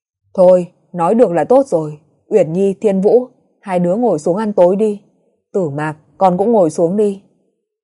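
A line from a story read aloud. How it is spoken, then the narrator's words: Laughing, lightening the mood. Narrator (Vietnamese): Hàn Thiếu bật cười, lên tiếng xua đi bầu không khí nặng nề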